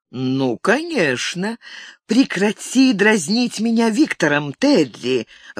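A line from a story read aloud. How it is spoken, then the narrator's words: Mock-angry, pleased exclamation. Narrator (Russian): воскликнула Катарин, пытаясь казаться рассерженной, но в ее тоне сквозило неприкрытое довольство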